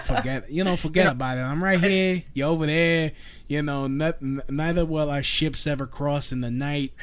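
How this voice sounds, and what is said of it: Speaks with a noticeable accent. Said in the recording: “I like your accent.”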